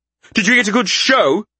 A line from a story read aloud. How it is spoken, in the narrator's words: He snapped